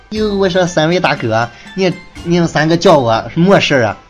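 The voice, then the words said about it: Put-on regional Chinese accent. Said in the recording (Chinese): “口音，啊。这个口音很熟悉”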